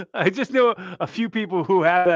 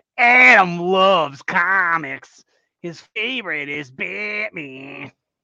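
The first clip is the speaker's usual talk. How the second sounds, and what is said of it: Put-on upstate New York accent. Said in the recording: “She talk like that? ... The accent. ... that accent who happen to be from upstate New York ... women that I know who are from upstate New York have that accent”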